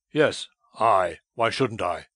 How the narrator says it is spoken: he cried in a loud voice

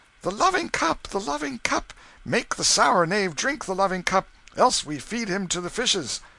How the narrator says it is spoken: They cried out

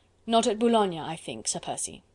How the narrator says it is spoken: retorted Chauvelin dryly

